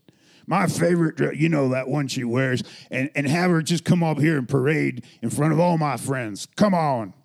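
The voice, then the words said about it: Put-on redneck Southern accent. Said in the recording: “he had a redneck South accent”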